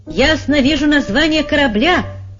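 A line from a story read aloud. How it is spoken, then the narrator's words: Shouting. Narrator (Russian): закричал Амбо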